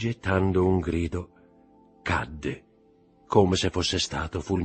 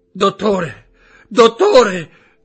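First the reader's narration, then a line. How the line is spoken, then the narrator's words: Shouted. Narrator (Italian): gridò Barois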